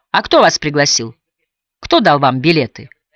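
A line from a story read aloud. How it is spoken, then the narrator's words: Defiant questioning tone. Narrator (Russian): вызывающим тоном спросил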